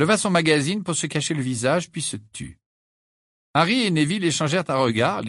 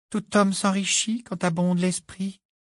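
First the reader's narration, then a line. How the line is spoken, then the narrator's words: Singsong voice. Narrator (French): dit Luna d'une voix chantante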